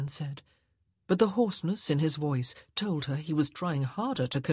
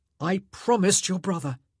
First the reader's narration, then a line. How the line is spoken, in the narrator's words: he said wildly